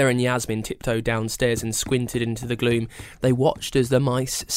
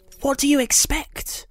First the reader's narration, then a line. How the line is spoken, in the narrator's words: Ella hissed